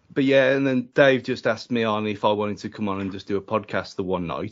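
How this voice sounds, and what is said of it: Wolverhampton English accent. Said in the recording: “I very much don't have a Wolverhampton accent. ... Whereas you very much do.”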